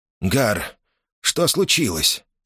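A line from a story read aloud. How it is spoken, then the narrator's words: Trembling voice. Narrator (Russian): спросил он дрогнувшим голосом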